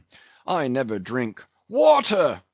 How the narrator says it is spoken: cried the captain

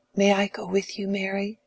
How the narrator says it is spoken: whispered Letty, a most inconvenient child

